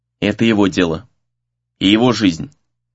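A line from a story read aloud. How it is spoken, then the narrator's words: Dry reply. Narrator (Russian): сухо отозвался Сагюнара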